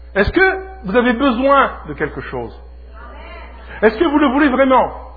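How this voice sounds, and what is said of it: Speaks French with an accent. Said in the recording (French): “j'essaie de perdre mon accent”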